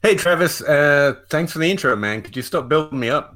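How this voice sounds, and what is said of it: Kentucky accent. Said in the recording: “you had this awesome accent ... This is just what people in Kentucky sound like ... That's the Kentucky accent I'm hearing? ... Genuine Kentucky accent coming at you.”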